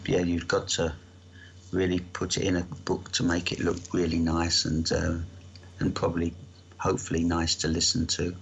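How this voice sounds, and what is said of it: South London accent. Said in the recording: “My accent is a South London, I suppose, a commoner's voice”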